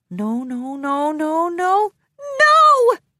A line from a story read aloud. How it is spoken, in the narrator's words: cried out